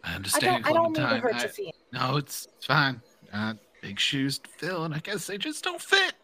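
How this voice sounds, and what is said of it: Speaks with a twang. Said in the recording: “I gotta get rid of that twang... Twang is a natural part of my voice, so it's harder to get rid of.”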